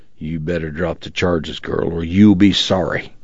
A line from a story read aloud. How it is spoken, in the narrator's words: growled